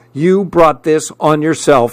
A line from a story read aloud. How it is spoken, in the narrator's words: she snapped